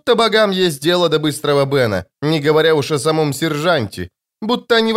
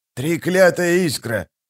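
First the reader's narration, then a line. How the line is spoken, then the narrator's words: Hissed. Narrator (Russian): прошипел он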